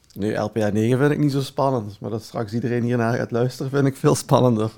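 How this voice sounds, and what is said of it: Belgian Dutch accent, sultry voice. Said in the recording (Dutch): “jouw zwoele stem ... mijn Belgisch accent ... we zijn al met twee Belgen”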